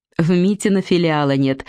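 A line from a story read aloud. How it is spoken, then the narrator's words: Laughing. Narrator (Russian): засмеялась Вера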